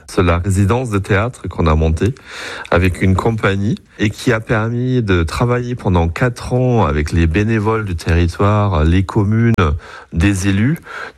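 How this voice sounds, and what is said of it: German accent speaking French. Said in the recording (French): “vous entendez à travers mon accent, d'être allemand”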